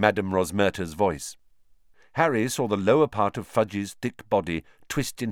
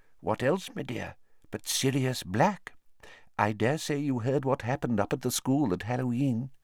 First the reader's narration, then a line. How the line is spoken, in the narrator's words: he said in a quiet voice